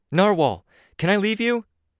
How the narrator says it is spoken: I called out

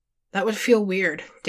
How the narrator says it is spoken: Dave said, chuckling lightly

